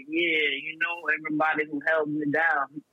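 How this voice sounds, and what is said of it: Imitates another person's voice. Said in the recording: “Is that your Bill Cosby impression? I can hear the footy pop coming out your voice.”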